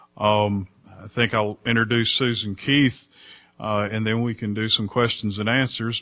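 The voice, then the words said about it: Speaks with a drawl. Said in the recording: “she probably doesn't have my drawl”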